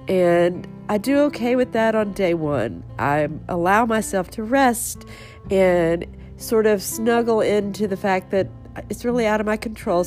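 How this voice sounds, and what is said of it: Stuffy, sick-sounding voice. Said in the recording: “your head is so stuffy... my voice sounds a little different today... day two of just being super under the weather”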